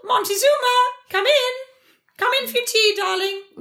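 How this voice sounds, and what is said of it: Posh English accent that slips. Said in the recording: “It'll be in the posh the posh park on Hampstead Heath... That was like My Fair Lady. She was fine and then she dropped it.”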